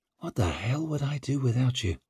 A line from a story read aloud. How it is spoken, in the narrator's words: He murmured